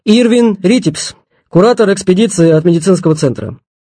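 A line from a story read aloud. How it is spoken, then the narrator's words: Loud. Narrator (Russian): громко сказал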